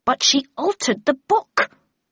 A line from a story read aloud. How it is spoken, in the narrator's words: cried Tweed angrily